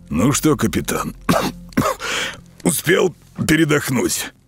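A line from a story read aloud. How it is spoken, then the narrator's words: Hoarse question. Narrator (Russian): хрипло спросил Ропот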